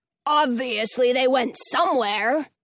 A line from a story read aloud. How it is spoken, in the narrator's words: he barks